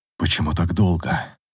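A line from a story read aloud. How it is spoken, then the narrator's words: Muffled whisper. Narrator (Russian): прошептал, зарываясь ей в волосы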